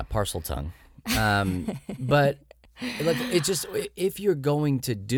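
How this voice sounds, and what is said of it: Usual voice. Nothing is said of it.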